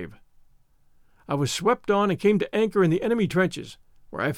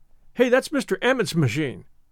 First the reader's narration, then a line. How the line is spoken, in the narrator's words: said one boy sharply